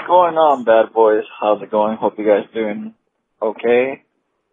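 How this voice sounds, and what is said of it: Imitates another person's voice. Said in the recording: “an impeccable like, Reed impersonation ... that was spot like, on”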